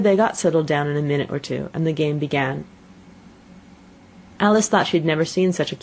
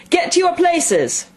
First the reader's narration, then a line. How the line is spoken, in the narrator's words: shouted the Queen in a voice of thunder